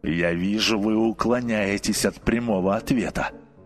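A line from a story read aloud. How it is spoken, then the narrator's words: Sullen grumble. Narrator (Russian): проворчал угрюмо нотариус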